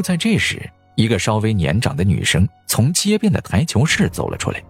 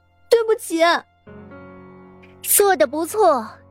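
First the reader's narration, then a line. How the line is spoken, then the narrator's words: Loud shout. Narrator (Chinese): 杨桃儿大声的喊了起来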